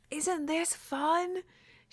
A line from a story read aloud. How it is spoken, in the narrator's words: She yells over Lan Zhan's shoulder, so that she can be heard above the wind and the sirens and the smashing of trees below